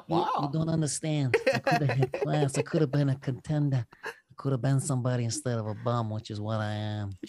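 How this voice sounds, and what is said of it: Imitates another person's voice. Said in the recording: “Mic drop for the Brando impression.”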